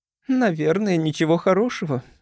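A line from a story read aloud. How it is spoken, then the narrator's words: Sighing. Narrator (Russian): вздохнула Джейн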